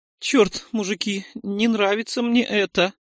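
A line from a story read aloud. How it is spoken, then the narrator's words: Slightly trembling voice. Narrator (Russian): Чуть дрогнувшим голосом сказал Нойс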